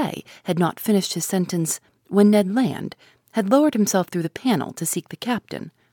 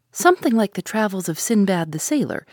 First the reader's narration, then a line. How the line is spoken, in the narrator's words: replied, laughing